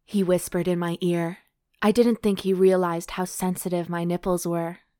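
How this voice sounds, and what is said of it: British accent. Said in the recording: “Why does he have an accent? ... He's British. He's from London.”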